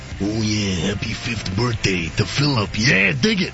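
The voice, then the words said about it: Macho Man impression. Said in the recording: “in your Macho Man voice”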